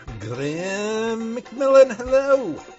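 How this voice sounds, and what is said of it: Strange put-on accent. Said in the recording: “I thought you had a wonderful, sort of strange accent there for saying Graham McMillan.”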